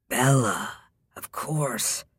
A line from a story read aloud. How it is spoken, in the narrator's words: murmured